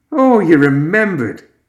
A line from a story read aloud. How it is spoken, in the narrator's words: he grinned